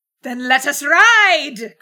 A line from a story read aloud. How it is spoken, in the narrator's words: cried Matilda